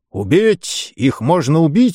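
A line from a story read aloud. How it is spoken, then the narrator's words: Exclaiming. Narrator (Russian): воскликнул сэр Роже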